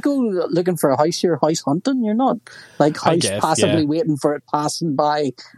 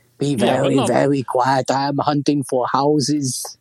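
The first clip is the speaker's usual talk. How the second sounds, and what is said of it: Bad Elmer Fudd voice, slightly German. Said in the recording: “That was a terrible elephant. ... That was an awful impression. ... I went from Elmer Fudd to kind of slightly German. ... you sound like you're in the Gestapo. ... German expressionist Elmer Fudd.”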